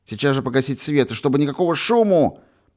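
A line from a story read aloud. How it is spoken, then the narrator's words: Nearly shouting. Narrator (Russian): почти крикнул Юрочка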